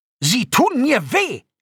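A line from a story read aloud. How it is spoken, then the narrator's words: Scream. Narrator (German): schrie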